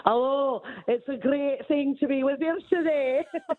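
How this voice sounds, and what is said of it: Put-on Scottish accent. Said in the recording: “why don't you try a Scottish accent? ... Scottish accent is sexy, baby.”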